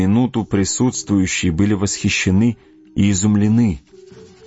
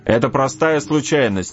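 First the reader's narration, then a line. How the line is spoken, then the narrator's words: Shout. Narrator (Russian): крикнул он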